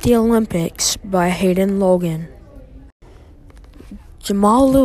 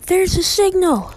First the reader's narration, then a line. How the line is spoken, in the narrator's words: the announcer says excitedly